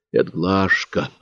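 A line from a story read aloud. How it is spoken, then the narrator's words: Whisper. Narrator (Russian): прошептал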